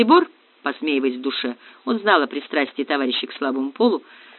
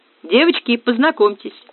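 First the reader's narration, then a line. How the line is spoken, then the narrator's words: Cheerful. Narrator (Russian): весело сказал Макград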